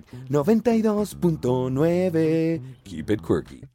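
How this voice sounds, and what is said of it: Radio announcer voiceover delivery. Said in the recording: “in your best VO voice ... You have many VO voices ... in Venezuela, they used to do the radio thing where after the radio station name, they would go like”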